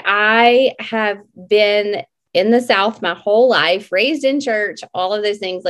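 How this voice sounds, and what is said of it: Slightly off, sick-sounding voice. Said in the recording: “My voice is a little funky tonight. We've had some sickness in our home”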